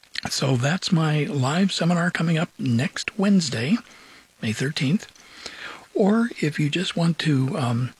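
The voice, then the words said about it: Hoarse voice. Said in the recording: “a little bit hoarse today ... my voice tends to change. Sometimes it gets higher pitched, sometimes it gets lower pitched”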